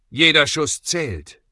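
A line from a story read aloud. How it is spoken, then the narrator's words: Calling out. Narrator (German): rief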